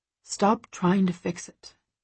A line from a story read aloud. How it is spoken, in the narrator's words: he mutters